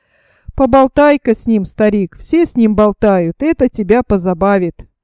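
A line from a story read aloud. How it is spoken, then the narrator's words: Gloating hyena-like laughter. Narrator (Russian): захохотал злорадным смехом гиены и сказал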